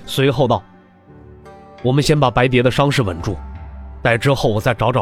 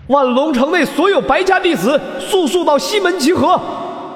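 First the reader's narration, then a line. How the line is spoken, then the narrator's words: Powerful shout. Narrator (Chinese): 白隼 运足了灵力，喊道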